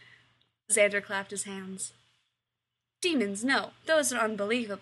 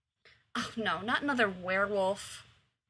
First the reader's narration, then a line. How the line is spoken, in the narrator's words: muttered Rose